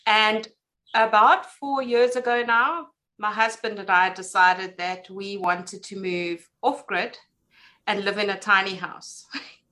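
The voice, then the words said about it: South African accent. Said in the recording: “as you can tell by my accent, I live in South Africa”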